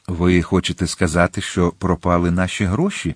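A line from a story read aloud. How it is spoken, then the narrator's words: Calm objection. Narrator (Ukrainian): спокійно заперечив Атос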